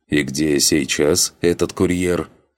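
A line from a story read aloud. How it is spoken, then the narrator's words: Lord snorting. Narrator (Russian): хмыкнул владыка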